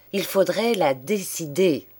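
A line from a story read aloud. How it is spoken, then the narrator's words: Plain. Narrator (French): dit-il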